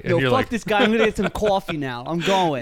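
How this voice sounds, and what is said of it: Mock New York accent. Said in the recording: “make fun of the New York accent ... the way that they talk ... you sound like the city version of a hillbilly”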